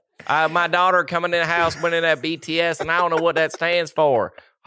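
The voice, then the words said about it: Exaggerated put-on Southern accent. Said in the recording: “We've done a Southern accent for the last 25 minutes.”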